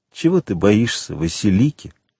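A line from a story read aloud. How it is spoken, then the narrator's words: Soft, tender, proud. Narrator (Russian): ответил Селим мягко, ласково и в то же время гордо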